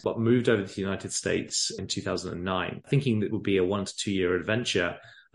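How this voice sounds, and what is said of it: English accent. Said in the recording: “you have an amazing accent ... I grew up in England, as you can probably tell from the accents”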